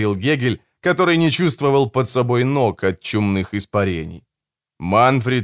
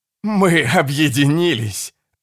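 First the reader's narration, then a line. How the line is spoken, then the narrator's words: Loud laughter. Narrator (Russian): расхохотался Генрих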